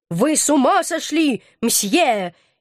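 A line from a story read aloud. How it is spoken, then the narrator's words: Shouting even louder. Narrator (Russian): еще громче закричал Наполеон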